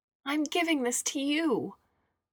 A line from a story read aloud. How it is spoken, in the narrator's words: screamed Xiao